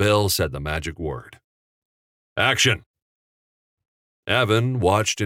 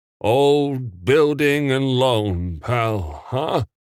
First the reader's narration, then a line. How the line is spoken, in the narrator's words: Uncle Billy slurred